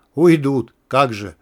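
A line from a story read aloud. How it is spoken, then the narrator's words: Grumbling fool. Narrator (Russian): проворчал дурень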